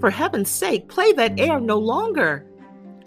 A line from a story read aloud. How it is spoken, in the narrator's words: I exclaimed with eagerness